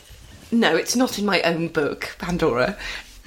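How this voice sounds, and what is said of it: Prissy tone. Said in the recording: “You sounded so prissy.”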